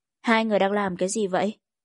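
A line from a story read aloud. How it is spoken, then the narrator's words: Trembling, holding back tears. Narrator (Vietnamese): Lan Khê ... kịch liệt run rẩy nén nước mắt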